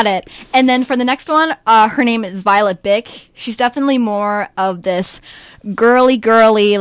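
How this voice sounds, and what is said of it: Usual voice. Nothing is said of it.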